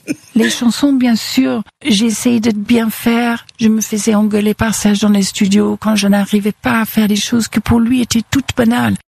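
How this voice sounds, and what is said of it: English accent speaking French. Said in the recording (French): “quand elle dit Serge avec son accent anglais”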